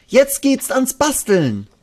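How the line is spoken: Called out. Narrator (German): ruft Ronja

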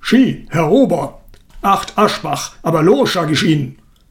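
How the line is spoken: Booming thunderous shout. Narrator (German): Er ließ seine Stimme wie eine Artilleriesalve über das Gartenlokal hinweg dröhnen und donnerte irgendeinem erschrockenen Kellner an

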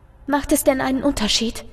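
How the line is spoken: Quiet voice. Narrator (German): lässt sich eine leise Stimme vernehmen

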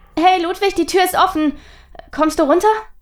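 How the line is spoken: Called out. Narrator (German): rief nun auch Charlotte

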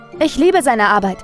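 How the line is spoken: Called out. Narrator (German): rief Jules

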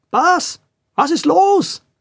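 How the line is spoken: Called out. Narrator (German): rief einer der Schrankwandbrüder

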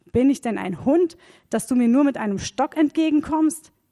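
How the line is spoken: Giant's furious roar. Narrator (German): brüllte Goliath ihn an

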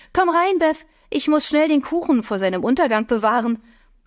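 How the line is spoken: Calling down the hallway. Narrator (German): rief sie in den Flur

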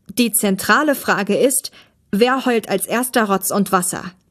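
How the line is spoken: Loud. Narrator (German): sagte laut

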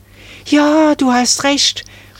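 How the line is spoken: Excited call. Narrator (German): rief da Marie aufgeregt

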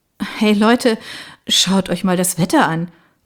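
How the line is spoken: Remarking. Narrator (German): bemerkte ich

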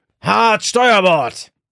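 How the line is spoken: Roaring again. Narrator (German): brüllte Rubeus erneut

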